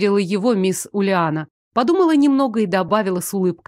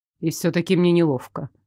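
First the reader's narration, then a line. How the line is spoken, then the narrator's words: Muttering. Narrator (Russian): забормотал Лоренс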